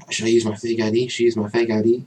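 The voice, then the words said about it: Put-on accent quoting someone. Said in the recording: “I love how you do the accent too.”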